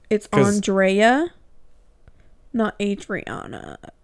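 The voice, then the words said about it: Vocal fry. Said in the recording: “You got that vocal fry. ... Got that vocal fry.”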